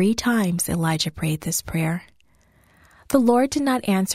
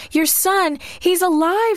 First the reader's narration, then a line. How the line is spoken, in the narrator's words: shouted